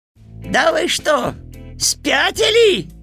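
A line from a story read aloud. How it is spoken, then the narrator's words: Yelling. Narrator (Russian): завопил Кузька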